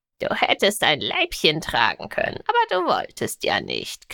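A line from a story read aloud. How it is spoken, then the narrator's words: Cheerful croak. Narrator (German): krächzte Garn vergnügt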